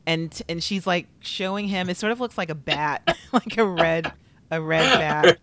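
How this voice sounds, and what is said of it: Overdone attempted Long Island accent. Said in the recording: “She's from Long Island, I think... I'm trying. I'll get better... I don't know what part of Long Island you think that is... her accent is so subtle... So I'm putting it where she's not putting it. So I'm going in so incorrect.”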